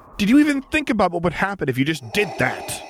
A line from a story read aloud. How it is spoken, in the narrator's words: he nearly yelled